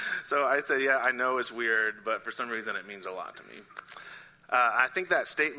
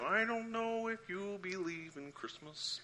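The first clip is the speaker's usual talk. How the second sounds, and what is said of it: Kermit the Frog impression. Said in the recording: “my Kermit impression”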